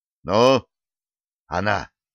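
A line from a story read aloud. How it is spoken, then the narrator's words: Anxious sigh. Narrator (Russian): Командующий флотом взволнованно вздохнул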